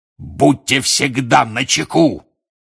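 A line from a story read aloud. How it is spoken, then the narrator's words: Roar. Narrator (Russian): взревел он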